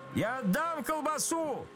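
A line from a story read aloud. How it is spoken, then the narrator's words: Shout. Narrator (Russian): закричал отец Федор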